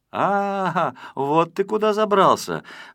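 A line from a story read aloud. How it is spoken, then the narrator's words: Exclaiming. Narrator (Russian): воскликнул Незнайка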